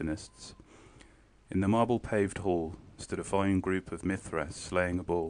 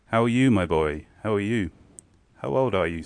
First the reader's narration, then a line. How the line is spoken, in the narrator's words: said he